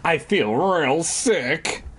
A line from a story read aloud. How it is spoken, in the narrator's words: Alex moaned